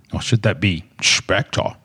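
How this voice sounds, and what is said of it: Imitates another person's voice. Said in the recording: “That's my Sean Connery impression.”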